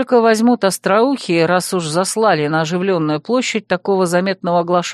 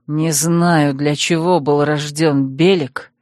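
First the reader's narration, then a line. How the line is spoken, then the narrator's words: Furious, through gritted teeth. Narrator (Russian): процедил раскрасневшийся от ярости Азар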